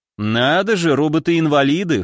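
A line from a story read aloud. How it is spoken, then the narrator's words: Amused snort. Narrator (Russian): хмыкнул я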